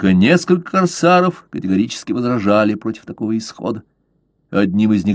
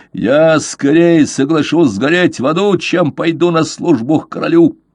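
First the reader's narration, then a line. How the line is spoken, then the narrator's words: Furious yelling. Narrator (Russian): В бешенстве заорал он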